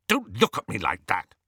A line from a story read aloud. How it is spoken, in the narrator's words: he snapped at Hermione